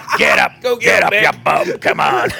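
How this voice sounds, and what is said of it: Imitates a boxing coach character. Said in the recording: “Mickey or from Rocky, his coach”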